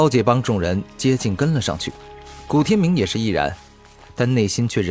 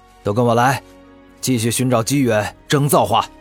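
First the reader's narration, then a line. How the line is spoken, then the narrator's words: Angry roar, earnest. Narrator (Chinese): 厉狂傲怒吼，认真说道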